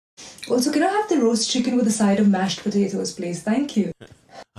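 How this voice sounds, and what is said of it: Woman with Indian accent. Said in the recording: “She has an Indian accent”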